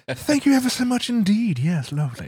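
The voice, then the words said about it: Poor exaggerated British accent. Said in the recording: “the announcers are exceedingly British ... That's a terrible impersonation. That was more Austin Powers than anything”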